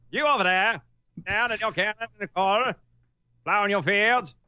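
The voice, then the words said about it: 1950s politician announcer voice. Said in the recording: “we need to do like the 1950s politician voice. Like the politician announcer voice ... That sounded more like a commercial”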